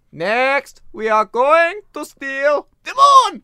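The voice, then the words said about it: Cartoon villain Gru voice impression. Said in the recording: “Was that a Gru impression? ... let me try Gru.”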